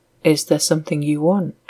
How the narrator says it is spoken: said softly

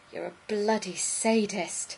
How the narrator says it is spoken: he gasped

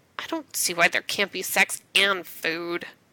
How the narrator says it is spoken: Rodney grumbles

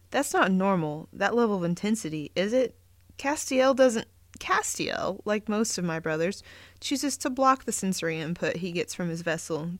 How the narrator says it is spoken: Gabriel answered

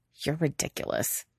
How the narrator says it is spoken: Quentin says under his breath

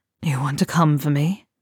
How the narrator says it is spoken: Theo asks breathlessly, feeling the bubble burst

